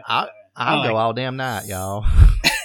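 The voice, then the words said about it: Put-on camp Southern accent. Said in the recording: “I'd do the best gay redneck you have ever heard, honey ... I really enjoy doing like the southern gay accent.”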